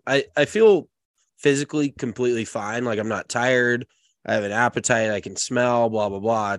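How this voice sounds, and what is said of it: Slightly raspy, stuffy congested voice. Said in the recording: “my sinuses are fucked up. So you can probably tell by my voice, it's maybe a little raspy and a little stuffy”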